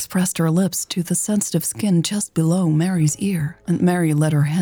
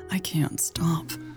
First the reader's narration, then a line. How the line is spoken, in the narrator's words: Lex whispered